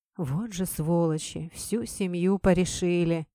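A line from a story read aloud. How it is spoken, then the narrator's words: Policeman sighing. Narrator (Russian): вздохнул полицейский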